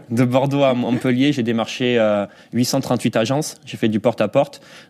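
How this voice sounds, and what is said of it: Southwestern French accent. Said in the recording (French): “dans le sud-ouest, vous devez l'entendre à mon accent ... Un petit peu.”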